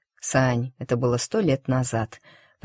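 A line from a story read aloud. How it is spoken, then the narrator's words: Guilty, muffled. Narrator (Russian): произнес Марк, виновато и глухо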